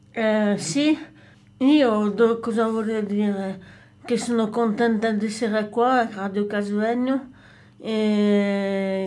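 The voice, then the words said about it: French accent speaking Italian. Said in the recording (Italian): “con il mio accento francese ... Ma è sexy il tuo accento ... l'accento francese ... È bellissimo il tuo accento ... È sensuale.”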